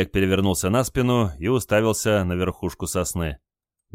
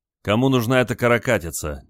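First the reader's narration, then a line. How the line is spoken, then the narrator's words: Displeased grumble, sailor. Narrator (Russian): недовольно проворчал моряк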